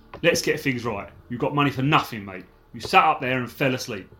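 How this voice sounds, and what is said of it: Put-on Cockney accent. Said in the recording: “I think you should have done that in a proper Cockney accent. ... That's brilliant.”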